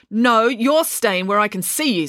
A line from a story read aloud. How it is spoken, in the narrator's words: snapped Mum